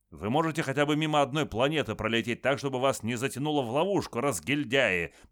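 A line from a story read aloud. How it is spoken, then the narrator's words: Sharp scolding shout. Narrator (Russian): прикрикнул на них адмирал Гримальди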